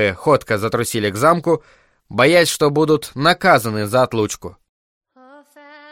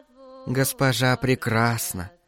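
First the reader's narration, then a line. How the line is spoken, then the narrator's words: Soft. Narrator (Russian): мягко сказала рыжая Дорка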